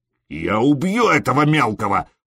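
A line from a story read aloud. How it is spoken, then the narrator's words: Growl. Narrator (Russian): прорычал Скьорн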